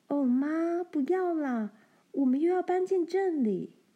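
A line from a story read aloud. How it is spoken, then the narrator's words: Crying out. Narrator (Chinese): 罗兰叫了起来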